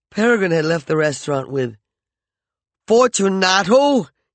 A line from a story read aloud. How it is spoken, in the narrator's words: he shouted